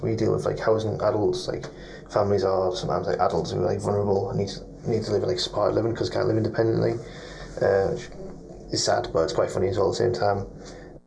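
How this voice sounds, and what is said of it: Scottish accent, hard to decipher. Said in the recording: “I'm trying to determine where his accent's from. I don't know if it's Scottish, maybe. ... It sounds Scottish. ... It's hard to decipher”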